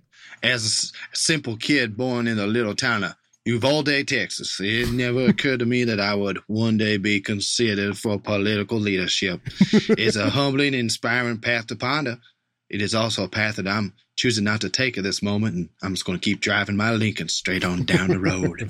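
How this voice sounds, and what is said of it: Put-on Southern celebrity-style accent. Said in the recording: “If Matthew McConaughey and Strom Thurmond had a child, that's what that accent was. Absolutely nailed it”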